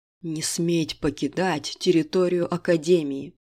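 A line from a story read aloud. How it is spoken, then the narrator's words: Hiss. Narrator (Russian): прошипел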